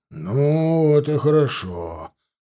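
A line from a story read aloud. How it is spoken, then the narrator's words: Satisfied sigh, older man. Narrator (Russian): вздохнул удовлетворенно дядька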